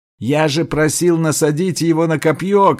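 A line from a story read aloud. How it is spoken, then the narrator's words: Shout. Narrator (Russian): крикнул Селенг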